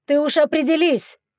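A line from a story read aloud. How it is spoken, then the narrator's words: Shouted. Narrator (Russian): крикнул ему вслед Вилель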